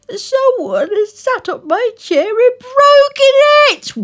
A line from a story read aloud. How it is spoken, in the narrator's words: wailed baby bear